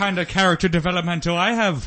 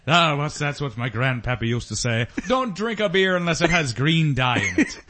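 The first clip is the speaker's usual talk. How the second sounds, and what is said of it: Bad put-on Irish accent. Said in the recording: “These accents are fucking awful. ... You sound like Robin Williams doing an Irish accent”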